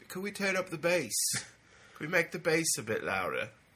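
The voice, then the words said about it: Put-on English accent. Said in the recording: “it's an English accent ... That's more like Sting there.”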